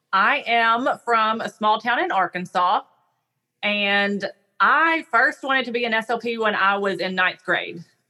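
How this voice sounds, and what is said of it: Noticeable regional American accent. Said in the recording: “I noticed right away you had an accent.”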